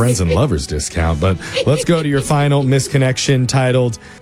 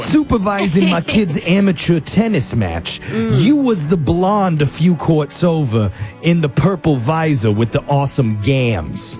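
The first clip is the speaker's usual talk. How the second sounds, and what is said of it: Put-on New York accent. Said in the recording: “I feel like this guy's a New York accent ... I didn't know that was a New York accent”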